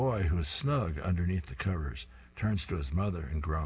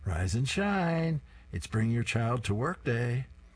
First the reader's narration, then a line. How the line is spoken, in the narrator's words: She happily sings to her son